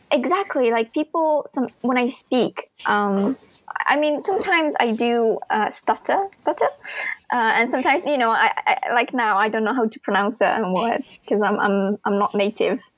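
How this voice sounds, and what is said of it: British-sounding English accent. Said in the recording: “I like your British accent. ... I thought you were British, though.”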